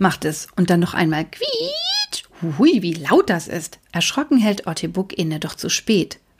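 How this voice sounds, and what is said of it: Usual voice. Nothing is said of it.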